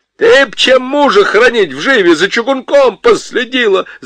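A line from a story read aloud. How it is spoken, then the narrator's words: Shouting. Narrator (Russian): закричал Гладышев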